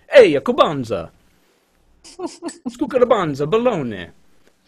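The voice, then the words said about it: Mock Italian accent. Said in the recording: “my Italian accent”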